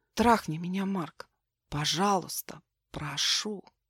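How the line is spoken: Soft, sensual, inviting. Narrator (Russian): Негромко, но чувственно и призывно, завораживая своим бесстыдством

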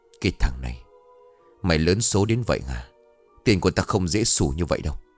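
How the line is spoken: Muttered. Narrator (Vietnamese): ông Khương lẩm bẩm

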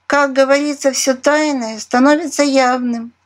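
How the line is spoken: Laughing woman leader. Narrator (Russian): рассмеялась предводительница амазонок

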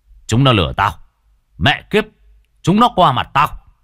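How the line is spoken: Shout. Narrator (Vietnamese): viên đội trưởng chỉ quát

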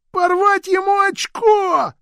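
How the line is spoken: Shrieking. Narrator (Russian): завизжал Джин

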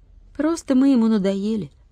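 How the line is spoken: Sighing. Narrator (Russian): вздохнул Владик

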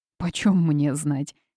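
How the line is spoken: Angry innkeeper. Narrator (Russian): сердито ответил трактирщик

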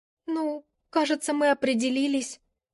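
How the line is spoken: Quiet, embarrassed. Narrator (Russian): тихо сказала Алина, явно мечтая провалиться под землю

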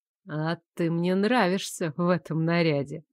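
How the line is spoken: Purring. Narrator (Russian): мурлыкнул Лоренс

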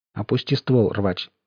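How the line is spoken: Quiet voice. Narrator (Russian): тихим голосом сказал Сток

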